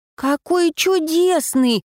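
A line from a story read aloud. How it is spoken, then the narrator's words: Delighted exclamation. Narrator (Russian): воскликнула она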